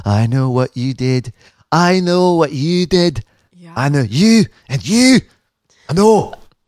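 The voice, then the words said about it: Exaggerated put-on Glasgow accent. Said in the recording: “from Glasgow. Can you tell by my ridiculous accent? ... can't do the accent like you.”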